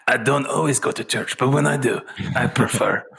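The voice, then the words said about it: Poor imitation of a commercial spokesman's accent. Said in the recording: “That was a horrible Dos Equis man accent.”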